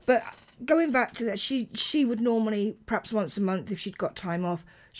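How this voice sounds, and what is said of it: Tired, failing voice. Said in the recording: “my voice is suddenly going, hang on, you've not talked this much for ages”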